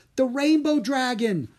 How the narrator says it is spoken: Obi cried

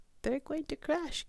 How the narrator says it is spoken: gasped Stella Luna

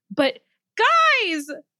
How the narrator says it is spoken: Jose bellowed

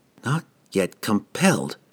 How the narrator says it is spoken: whispered to herself, echoing the spectre's parting words

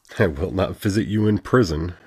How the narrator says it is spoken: Chui chuckled

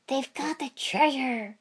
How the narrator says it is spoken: Naruto hissed

